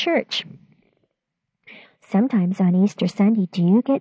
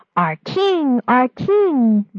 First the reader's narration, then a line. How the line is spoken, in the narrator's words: the people cried